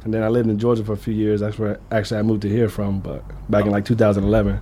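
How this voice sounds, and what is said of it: Southern US accent. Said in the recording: “I'm from the South, actually. You probably tell by my voice”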